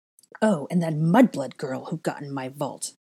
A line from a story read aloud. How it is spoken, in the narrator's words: snapped her fingers in afterthought, continuing with her list as if she'd said nothing